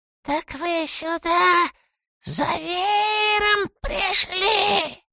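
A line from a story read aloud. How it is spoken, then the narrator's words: Quiet hiss. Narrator (Russian): Тихо прошипел он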